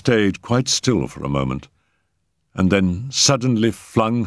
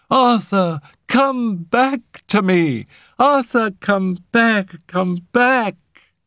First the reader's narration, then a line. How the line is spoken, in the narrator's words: Her voice echoed away into silence